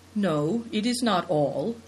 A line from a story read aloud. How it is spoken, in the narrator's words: answered calmly